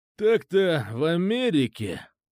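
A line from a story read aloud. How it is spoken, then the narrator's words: Heavy sigh. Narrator (Russian): тяжело вздохнул Болт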